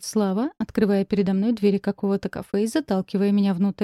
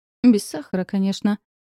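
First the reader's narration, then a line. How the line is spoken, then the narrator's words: Smirking snort. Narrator (Russian): хмыкнул мой муж, усмехнувшись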